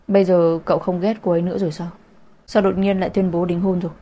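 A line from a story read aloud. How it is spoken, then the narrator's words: Cold, gloomy. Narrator (Vietnamese): Mục Bắc Thừa lạnh lùng, u ám nói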